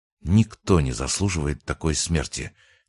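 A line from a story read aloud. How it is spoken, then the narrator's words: Quiet addition. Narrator (Russian): тихо добавил Антон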